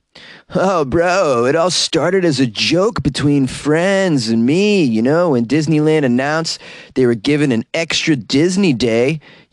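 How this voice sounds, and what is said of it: Put-on Southern California surfer accent. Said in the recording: “So I'm going to give a little SoCal surfer accent for this.”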